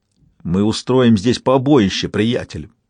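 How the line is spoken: Growling. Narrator (Russian): прорычал Уинтерс

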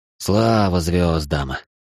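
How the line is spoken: Relieved exhale. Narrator (Russian): выдохнул Акир

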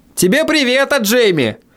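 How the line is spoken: Shouting. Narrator (Russian): крикнул я

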